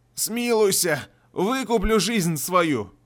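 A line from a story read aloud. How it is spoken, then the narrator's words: Hoarse wheezing. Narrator (Russian): Лихо уже хрипело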